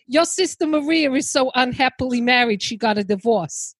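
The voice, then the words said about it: Throaty New Jersey accent. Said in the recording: “I gotta try and get the throaty. Uh, I'll maybe do a more New Jersey”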